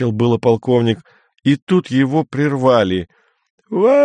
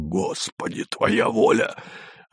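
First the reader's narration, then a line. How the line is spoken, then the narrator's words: Hoarse unfamiliar voice nearby. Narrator (Russian): незнакомый голос у него над ухом прохрипел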